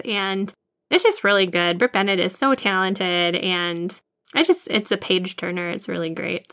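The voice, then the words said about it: Minnesota accent. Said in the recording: “your Minnesota accent came out a lot right there”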